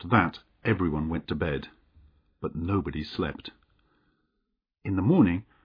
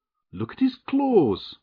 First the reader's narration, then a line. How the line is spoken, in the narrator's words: cried